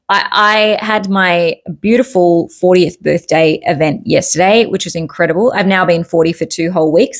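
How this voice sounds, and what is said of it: Rusty, slightly strained voice. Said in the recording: “my voice is a little bit rusty today and you might hear it getting a little under strain”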